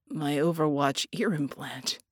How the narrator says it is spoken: Red croaked

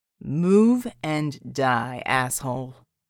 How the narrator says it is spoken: John growled

